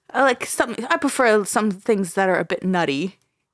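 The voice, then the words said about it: Put-on British accent. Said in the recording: “We're done with the British accents.”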